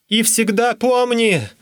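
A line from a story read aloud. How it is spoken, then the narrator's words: Shouting after someone. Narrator (Russian): крикнул мне вслед Данселот 2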